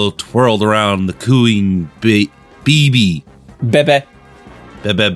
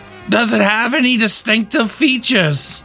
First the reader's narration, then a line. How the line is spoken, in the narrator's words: Jimmy yelled back